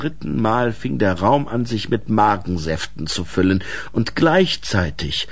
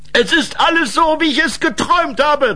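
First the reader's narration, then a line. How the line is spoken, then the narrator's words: Called out. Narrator (German): rief Boris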